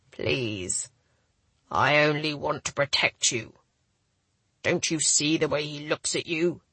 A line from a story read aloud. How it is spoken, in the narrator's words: his voice went hard